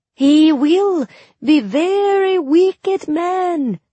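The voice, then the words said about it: Bad put-on Suli accent. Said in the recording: “My accent was even worse than Mal's. If any real Suli overheard me, I'd probably end up with a black eye.”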